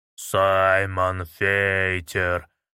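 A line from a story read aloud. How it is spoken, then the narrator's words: Strangely low voice. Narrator (Russian): произнес он странно низким голосом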